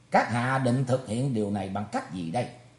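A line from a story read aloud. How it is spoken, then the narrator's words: Cold-smiling question. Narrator (Vietnamese): Thủy Tuấn Hạo cười nhạt hỏi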